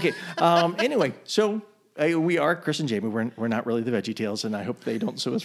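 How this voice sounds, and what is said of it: Usual voice. Nothing is said of it.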